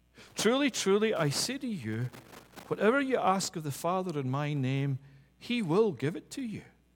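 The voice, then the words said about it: Glasgow Scottish accent. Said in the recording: “you don't hear the Glasgow accent, you don't hear the fact that I'm originally from Scotland”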